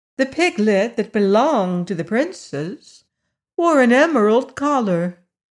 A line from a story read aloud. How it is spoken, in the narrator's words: said Eureka loudly enough for all to hear